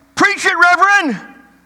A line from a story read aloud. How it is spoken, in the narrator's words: they yelled again